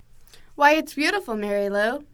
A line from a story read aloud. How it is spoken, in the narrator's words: her grandmother exclaimed